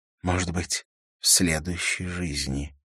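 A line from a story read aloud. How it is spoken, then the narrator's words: Whisper. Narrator (Russian): шепнула она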